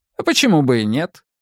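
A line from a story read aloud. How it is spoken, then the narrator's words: Overly cheerful reply. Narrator (Russian): чересчур бодро ответил Таннер Болт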